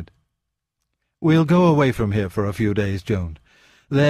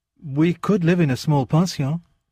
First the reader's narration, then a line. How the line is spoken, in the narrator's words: said hastily